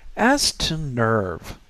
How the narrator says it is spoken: continued slowly

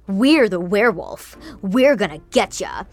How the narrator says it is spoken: Easton growled

